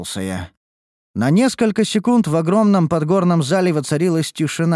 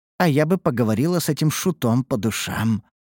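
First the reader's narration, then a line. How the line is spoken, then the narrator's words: Grumbling mutter. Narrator (Russian): буркнула Лея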